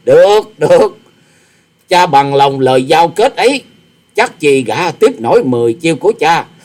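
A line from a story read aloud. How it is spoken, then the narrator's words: Arrogant loud laugh. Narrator (Vietnamese): Tư Đồ Hạnh ngạo nghễ cười to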